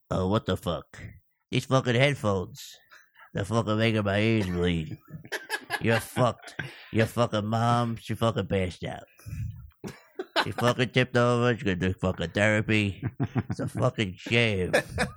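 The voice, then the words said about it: Imitates a TV mob boss's voice. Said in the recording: “I'll do Tony Soprano trying your shitty headphones on”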